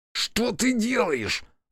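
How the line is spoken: Belated hiss. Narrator (Russian): запоздало зашипела Аяшики

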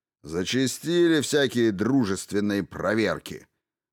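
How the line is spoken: Grumbling. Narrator (Russian): проворчал Коннор

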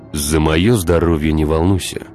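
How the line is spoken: Plain. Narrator (Russian): сказал Владимир

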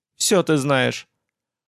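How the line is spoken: Level, composed tone. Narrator (Russian): После паузы, справившись с голосом, сказала ровным тоном

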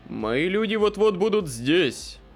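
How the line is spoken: Growled. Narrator (Russian): прорычал Паркер

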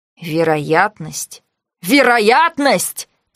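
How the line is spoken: Almost growled. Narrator (Russian): почти прорычал Ликос

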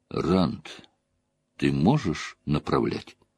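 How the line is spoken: Quiet question. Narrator (Russian): Он помолчал, хмурясь, обдумывая тщательно все про себя, потом тихо спросил

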